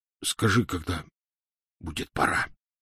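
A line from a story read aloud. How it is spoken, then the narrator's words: Hoarse request. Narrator (Russian): сипло попросил он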